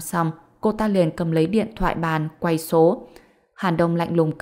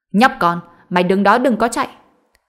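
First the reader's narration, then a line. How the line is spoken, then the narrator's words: Angry young woman yelling. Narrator (Vietnamese): Nhân viên nữ trẻ tuổi đặc biệt nóng này giận dữ hét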